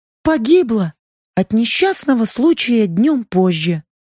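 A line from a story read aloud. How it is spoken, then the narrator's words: Sad. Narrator (Russian): грустно сообщила Лаура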